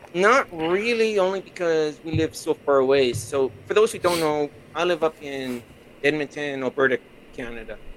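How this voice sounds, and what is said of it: Canadian, Minnesota-like accent. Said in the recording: “That's why you got the accent. ... I used to live in Minnesota, so you sounded like that.”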